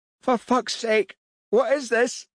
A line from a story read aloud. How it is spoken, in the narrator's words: he yelled